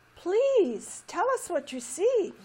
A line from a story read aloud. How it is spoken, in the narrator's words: pleaded a little vine